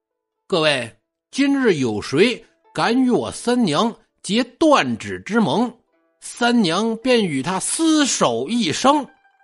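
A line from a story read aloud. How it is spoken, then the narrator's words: Half-smiling, somber. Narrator (Chinese): 眼神一暗，似笑非笑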